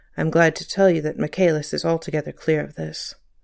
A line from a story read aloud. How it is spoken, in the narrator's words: The assistant commissioner added in a low tone